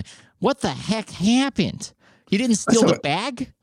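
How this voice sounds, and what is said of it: Nasal put-on Midwestern accent. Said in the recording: “the Midwestern accent, a little too nasal”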